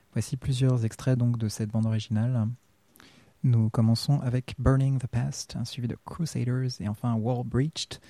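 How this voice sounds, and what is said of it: American accent in French. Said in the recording (French): “mon accent, je me la pète, américain”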